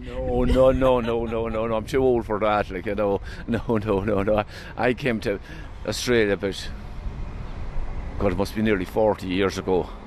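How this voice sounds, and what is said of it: Irish accent. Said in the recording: “with your accent ... one of the many Irish backpackers ... Still haven't lost my accent”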